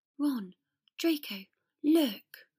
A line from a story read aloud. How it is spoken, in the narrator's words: Potter breathed